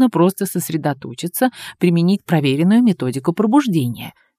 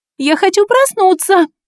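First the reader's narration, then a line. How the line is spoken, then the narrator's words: Shout. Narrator (Russian): Закричала я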